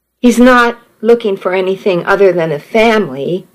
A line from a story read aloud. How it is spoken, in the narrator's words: said